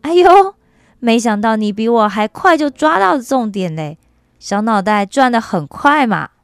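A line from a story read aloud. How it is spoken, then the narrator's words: Laughing. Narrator (Chinese): 永光笑着说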